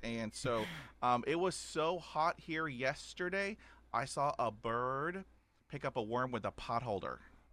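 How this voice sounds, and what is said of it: Texan accent. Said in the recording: “if y'all didn't pick up on my accent, I'm from Texas, Houston, Texas”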